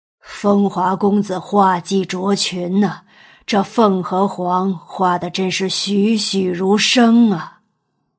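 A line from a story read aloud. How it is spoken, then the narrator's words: Grateful, admiring praise. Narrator (Chinese): 钱大人 感激之余赞叹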